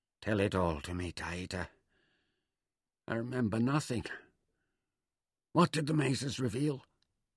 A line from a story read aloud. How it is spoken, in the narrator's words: When he'd recovered enough to speak again, he whispered